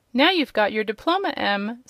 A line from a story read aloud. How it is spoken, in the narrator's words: said Uncle Henry, with a laugh